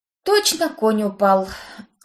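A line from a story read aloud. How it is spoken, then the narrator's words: Sympathetic sigh. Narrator (Russian): Вздохнула я, искренне сочувствуя бронзовому приятелю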